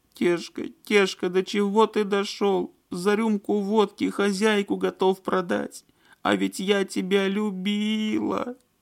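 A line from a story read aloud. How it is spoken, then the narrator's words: Loud sobbing woman. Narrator (Russian): Девушка в голос зарыдала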